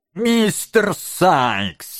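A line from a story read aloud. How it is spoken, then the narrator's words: Joyful exclamation. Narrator (Russian): воскликнул барни с искренней или притворной радостью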